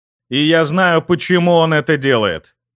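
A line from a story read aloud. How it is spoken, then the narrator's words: Loud, for all to hear. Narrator (Russian): Громко, так, чтобы все меня могли услышать, произнес я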